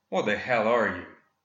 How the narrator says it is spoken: Marion growled

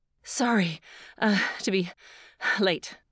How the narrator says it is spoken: Between pants, said

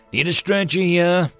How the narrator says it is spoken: Doc called out

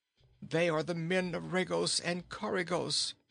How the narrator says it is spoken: he groaned

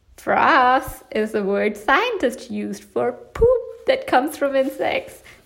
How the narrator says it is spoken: exclaimed Mom

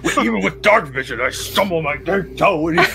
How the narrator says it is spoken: I could hear him grumbling

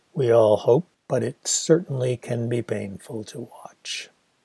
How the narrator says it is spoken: in her sumptuous monotone, she replied

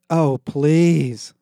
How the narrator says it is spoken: Becky groaned

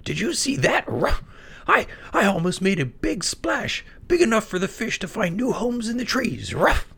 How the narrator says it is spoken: exclaimed excitedly

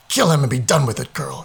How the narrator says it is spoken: he snarled again

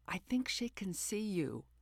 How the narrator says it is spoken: my NASA guy whispered

